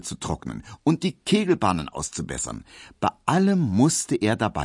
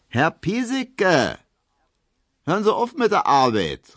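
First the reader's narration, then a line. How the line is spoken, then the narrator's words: Calling out. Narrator (German): rief Hedwig ihm zu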